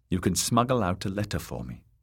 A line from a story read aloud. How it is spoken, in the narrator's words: said the princess